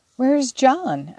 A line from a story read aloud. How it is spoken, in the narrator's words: asked Meg anxiously